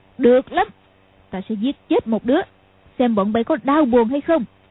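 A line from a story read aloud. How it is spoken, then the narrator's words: Shout. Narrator (Vietnamese): Lý Mặc Sầu quát lên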